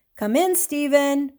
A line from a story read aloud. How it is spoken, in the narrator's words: Methuselah called out